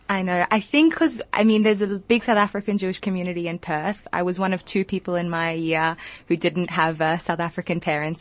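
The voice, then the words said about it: Gentle Australian accent. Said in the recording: “you're Australian, because your accent is so gentle”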